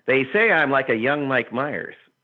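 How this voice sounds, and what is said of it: Imitates another person's voice. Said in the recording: “I'm probably going to do the worst Dave Foley impression”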